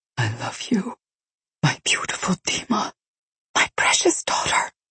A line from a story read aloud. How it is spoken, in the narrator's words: she whispered